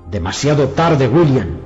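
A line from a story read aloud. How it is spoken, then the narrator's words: Shouted over shoulder. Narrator (Spanish): gritó por encima del hombro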